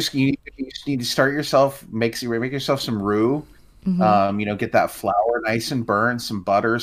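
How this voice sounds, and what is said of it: Usual voice. Nothing is said of it.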